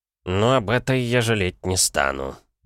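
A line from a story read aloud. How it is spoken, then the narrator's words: Mumbled. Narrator (Russian): пробурчал Смородине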